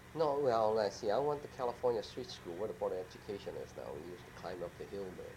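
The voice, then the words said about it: Chinese-accented English. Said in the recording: “we still have the Chinese accent ... Chinatown English, so some people have an awful time to understand my language”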